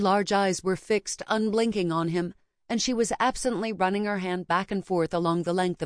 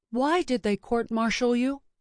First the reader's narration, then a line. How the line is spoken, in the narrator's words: Dahlia asked